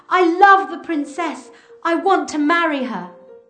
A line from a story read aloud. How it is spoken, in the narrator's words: he shouted